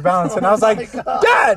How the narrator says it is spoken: I screamed

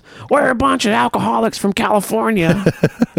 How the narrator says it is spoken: James yells

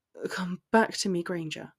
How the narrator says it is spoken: he bade in a barely there voice

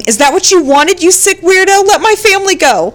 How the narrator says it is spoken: arguing on the phone, screaming

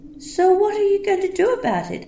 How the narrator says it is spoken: I asked, trying to sound confident and calm, but my voice sounding timid and scared in my ears

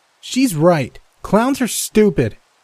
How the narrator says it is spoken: he frowned and yelled

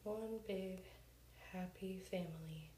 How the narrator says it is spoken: Bob sighs, saying

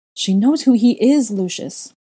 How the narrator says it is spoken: Narcissa barked back at him, and I could hear how frayed her nerves were

